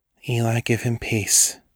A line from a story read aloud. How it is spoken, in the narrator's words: she murmured